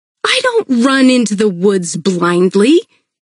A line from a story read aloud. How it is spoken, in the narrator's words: snapped